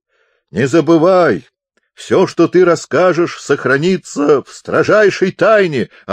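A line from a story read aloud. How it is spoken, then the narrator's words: Yelling. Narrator (Russian): орал он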